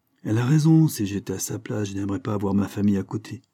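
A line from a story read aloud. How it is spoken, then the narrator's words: Sigh. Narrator (French): soupire Jean-Claude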